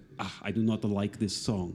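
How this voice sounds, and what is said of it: Imitated Russian accent. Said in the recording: “in the Russian accent”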